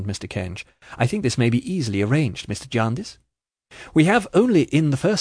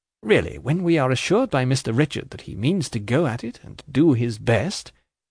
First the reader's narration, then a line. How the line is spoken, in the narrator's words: nodding feelingly and smoothly over those expressions